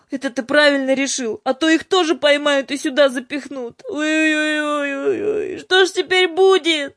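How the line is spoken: Sobbing. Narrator (Russian): рыдала Юлька

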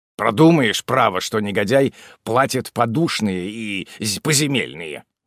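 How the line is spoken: Grumbling. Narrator (Russian): проворчал Чин

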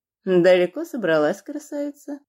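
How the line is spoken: Mocking burly man. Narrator (Russian): насмешливо спросил бритый нагло здоровяк

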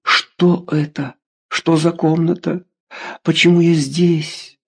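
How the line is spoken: Whispered. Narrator (Russian): прошептали

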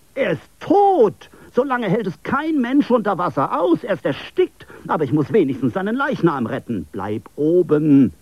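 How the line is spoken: Crying out. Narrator (German): schrie er auf

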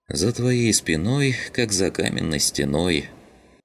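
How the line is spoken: Sighing. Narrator (Russian): Вздохнула Родька

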